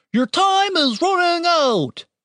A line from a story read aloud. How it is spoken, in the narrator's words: shouted Mordred in the voice he had used for the soldier